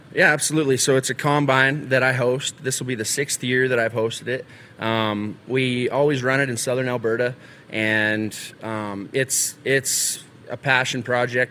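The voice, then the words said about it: Texan accent. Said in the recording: “I thought I heard a Texan accent. You did. That's from”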